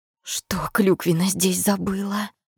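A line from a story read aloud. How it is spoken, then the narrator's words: Hissing. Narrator (Russian): прошипела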